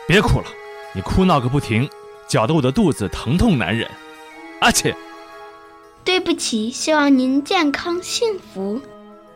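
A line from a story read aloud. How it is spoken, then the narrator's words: Sneezing, roaring showman. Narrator (Chinese): 打了几个喷嚏，戏团老板向匹诺曹吼道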